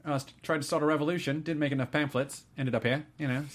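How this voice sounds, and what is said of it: Good put-on New Zealand accent. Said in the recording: “He's got a surprisingly good Kiwi accent.”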